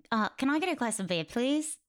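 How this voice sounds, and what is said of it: Australian accent with rising inflection. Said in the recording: “Oh, that's really good. ... It's the right inflection, right? Because Australians go up at the end of their sentences, so everything sounds like a question. ... they all sound like your accent”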